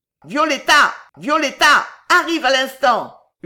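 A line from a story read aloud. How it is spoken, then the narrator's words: Yelling. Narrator (French): hurlait Belgodère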